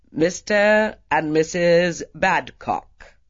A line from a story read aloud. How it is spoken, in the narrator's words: boomed the man in livery